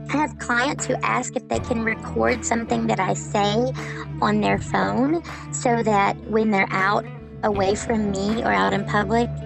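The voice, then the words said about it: A comforting regional accent. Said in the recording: “my accent is comforting to them”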